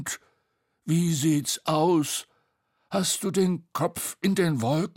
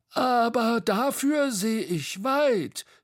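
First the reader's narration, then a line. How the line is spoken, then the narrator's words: Called out. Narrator (German): rief Bo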